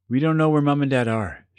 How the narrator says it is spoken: she said

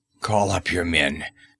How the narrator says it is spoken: he growled

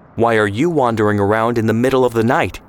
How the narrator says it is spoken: snapped

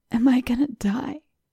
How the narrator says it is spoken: he rasped, blood frothing in the corner of his lip

